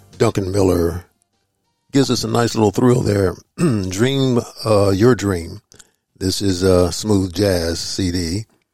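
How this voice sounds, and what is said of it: Slightly hoarse voice. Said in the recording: “I'm a little hoarse there”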